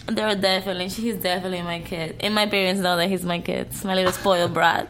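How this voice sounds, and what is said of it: Swedish accent. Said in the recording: “she's got this Swedish accent”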